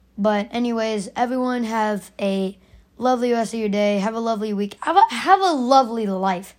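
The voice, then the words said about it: Raspy voice. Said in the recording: “Sorry if my voice is really raspy”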